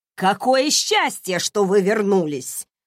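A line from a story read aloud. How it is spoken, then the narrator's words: Loud complaint. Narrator (Russian): громко жаловалась Клементина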